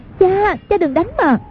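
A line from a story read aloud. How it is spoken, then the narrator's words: Frightened cry. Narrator (Vietnamese): Hoàng Dung hoảng sợ kêu lên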